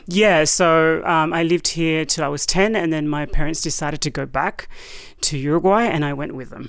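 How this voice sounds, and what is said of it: Slight foreign accent. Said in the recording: “I hear a little bit of accent, which is so beautiful”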